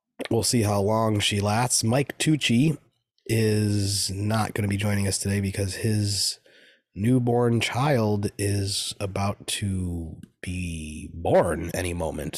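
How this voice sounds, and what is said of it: Slightly congested, sniffly voice. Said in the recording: “it kind of just feels like a cold for me ... A little cough, a little sniffle. You can maybe hear it in my voice”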